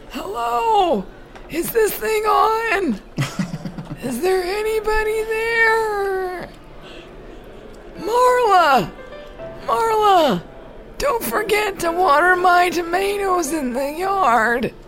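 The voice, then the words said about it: Put-on old man voice. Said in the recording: “my old man voice ... I'm still working out my old man voice.”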